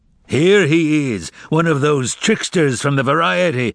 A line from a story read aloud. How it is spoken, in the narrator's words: boomed an intimidating voice